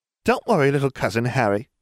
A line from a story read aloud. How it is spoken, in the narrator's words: laughed